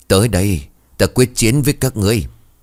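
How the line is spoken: Wild loud laughter. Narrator (Vietnamese): hai mắt đỏ ngầu cười lớn

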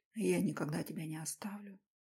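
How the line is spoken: Whisper. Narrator (Russian): шепнул я

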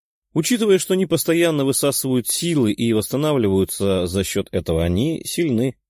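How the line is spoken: Plain. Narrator (Russian): ответила девушка

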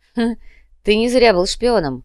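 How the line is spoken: Smirking snort. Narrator (Russian): хмыкнул Шас

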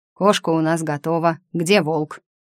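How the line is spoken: Warrior's bark. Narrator (Russian): Заросший шерстью воин рявкнул, оскалив изогнутые клыки

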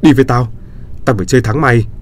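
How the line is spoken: Angry shout. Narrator (Vietnamese): hét lên

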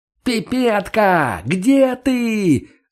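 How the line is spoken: Full-throated yell. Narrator (Russian): заорал он во всю глотку

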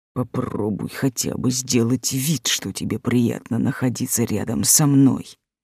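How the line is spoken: Irritated whisper, dragon. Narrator (Russian): раздраженно шепнул дракон

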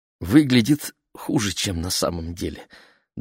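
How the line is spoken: Trembling voice, mother. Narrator (Russian): дрогнувшим голосом пояснила мама

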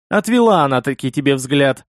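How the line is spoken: Chuckling. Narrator (Russian): хохотнул Махас

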